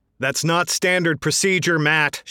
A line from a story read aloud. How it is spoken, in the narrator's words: Shelnick yelled